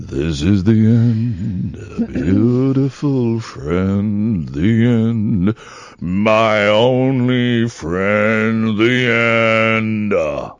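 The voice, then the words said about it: Sung imitation of a rock singer. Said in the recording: “That's not a bad Jim Morrison impression. ... It's a bit more Scott Walker, actually.”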